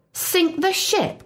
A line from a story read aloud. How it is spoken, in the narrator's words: cried Stillkilt